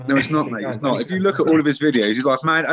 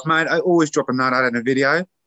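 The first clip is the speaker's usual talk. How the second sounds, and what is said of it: Exaggerated Australian accent. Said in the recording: “Obviously in an Australian accent.”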